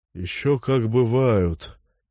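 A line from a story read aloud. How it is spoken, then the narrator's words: Old man's sigh. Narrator (Russian): вздохнул старик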